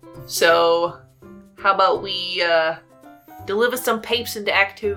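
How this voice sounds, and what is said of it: Put-on strong New Jersey accent. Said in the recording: “That's my best accent. ... New Jersey. ... New York / New Jersey. ... more like broad East Coast accent, but like it's a strong accent.”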